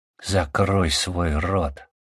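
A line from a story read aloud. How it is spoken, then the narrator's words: Hissed through teeth. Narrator (Russian): сквозь зубы процедил Мирза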